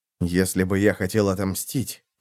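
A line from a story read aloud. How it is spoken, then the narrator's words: Muttering, spearman. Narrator (Russian): пробормотал копьеносец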